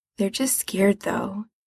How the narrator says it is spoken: he says more quietly

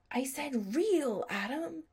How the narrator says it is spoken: a little voice in his head that sounded disturbingly like Sherry's hissed

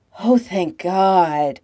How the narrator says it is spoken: he gasps

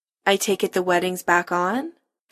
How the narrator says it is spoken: Kim says dryly

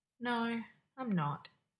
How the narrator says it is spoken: says sadly

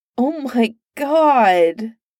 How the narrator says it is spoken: Merlin wailed

